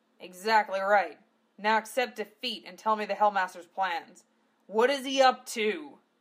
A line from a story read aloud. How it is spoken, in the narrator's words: Gov roared in his face